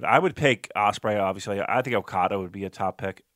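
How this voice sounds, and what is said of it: Strained, hoarse voice. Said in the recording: “I'm literally losing my voice.”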